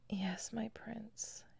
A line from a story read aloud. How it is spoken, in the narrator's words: she whispered